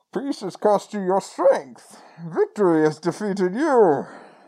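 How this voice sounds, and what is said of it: Imitates Bane's voice. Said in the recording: “Your Bane impression is better than mine ... That's so good.”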